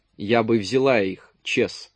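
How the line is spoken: Serious female voice. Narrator (Russian): серьезным тоном сказала Пат

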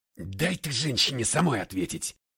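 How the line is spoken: Furious bark. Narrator (Russian): гаркнул я на него с такой яростью

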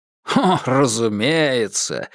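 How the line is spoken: Laughing. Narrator (Russian): рассмеялся Клеменс

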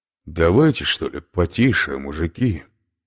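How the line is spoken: Tentative languid voice. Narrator (Russian): произнес Иван на пробу томным голосом

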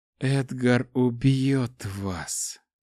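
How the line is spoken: Female whisper. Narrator (Russian): прошептала она

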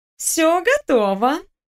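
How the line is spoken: Cooing. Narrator (Russian): проворковала Наташка

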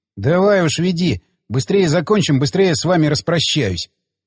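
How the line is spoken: Grumbled. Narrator (Russian): проворчал Крылов

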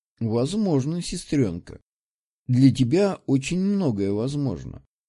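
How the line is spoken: Soft drawl. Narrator (Russian): протянул он мягко

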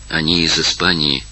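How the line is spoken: Quiet. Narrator (Russian): тихо сказала она Марион

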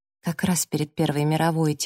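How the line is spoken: Quiet. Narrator (Russian): тихо сказала я

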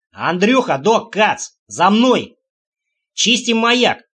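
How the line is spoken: Shout. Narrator (Russian): прокричал Димка

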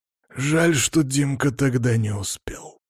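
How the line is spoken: Through gritted teeth. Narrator (Russian): процедил тот

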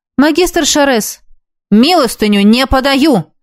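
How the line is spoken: Barked. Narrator (Russian): рявкнул

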